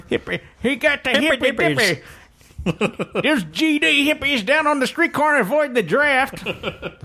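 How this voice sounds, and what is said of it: Bad put-on old man voice. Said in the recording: “That's the worst old man voice of all time ... the impression wasn't the best ... I need to workshop my old man accent”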